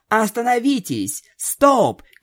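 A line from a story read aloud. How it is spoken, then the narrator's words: Shouting. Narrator (Russian): кричала единорожка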